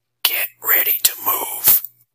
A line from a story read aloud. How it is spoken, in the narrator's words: He whispered in mouth